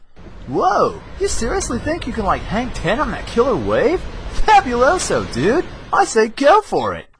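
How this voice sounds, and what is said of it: Surfer-dude cartoon character voice. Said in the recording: “this is my character voice demo reel”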